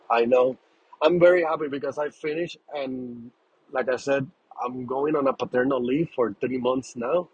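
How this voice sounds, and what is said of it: Tired, worn-out voice. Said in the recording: “I'm very tired, guys. I had a long day. Sorry, my voice is not making any justice right now.”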